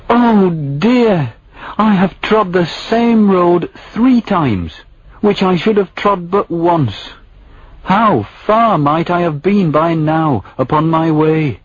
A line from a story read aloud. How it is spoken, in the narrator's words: he cried